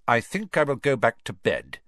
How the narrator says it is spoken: Snape said, curtly

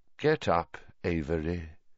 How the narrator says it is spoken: said Voldemort softly

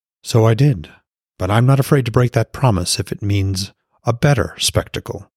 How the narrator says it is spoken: Frigg said, her voice even

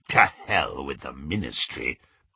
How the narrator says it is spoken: growled Greyback

